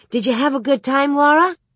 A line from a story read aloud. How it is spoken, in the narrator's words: Carrie eagerly asked